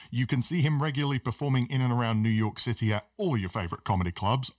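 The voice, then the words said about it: British accent. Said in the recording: “you can't let go of the British accent. It should always be an announcer or something”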